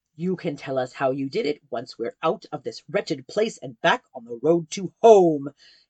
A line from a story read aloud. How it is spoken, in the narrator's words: hissed Sigurd